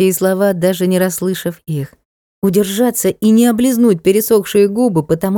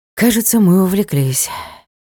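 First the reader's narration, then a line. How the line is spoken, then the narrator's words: Sighing. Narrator (Russian): вздохнул Ник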